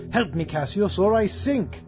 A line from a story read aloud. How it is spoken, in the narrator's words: Caesar cried